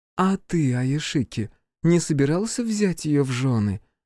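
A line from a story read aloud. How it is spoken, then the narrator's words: Gentle question, mother. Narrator (Russian): мягко спросила мать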